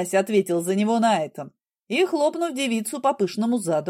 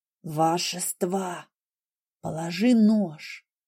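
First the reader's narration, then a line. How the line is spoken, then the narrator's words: Whispered request. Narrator (Russian): шепотом попросил Найтан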